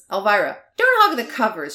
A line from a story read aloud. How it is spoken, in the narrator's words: she snaps